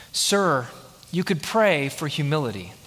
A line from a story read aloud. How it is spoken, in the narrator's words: The educator replied gently